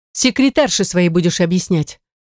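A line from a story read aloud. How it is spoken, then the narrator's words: Sharp. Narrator (Russian): Резко выдает сестра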